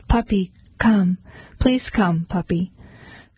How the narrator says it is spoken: in a soft voice she called

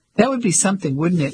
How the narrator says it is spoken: He laughed

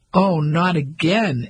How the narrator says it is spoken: Ellie burst out laughing

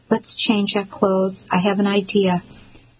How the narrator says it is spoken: he said gently

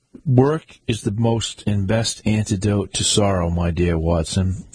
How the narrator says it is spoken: said he

